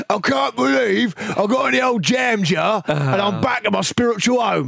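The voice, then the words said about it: Cockney accent, imitating David Moyes. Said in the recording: “Did he say in a Cockney accent? ... I'd love it if he did that.”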